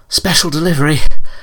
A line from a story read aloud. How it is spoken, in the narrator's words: gasped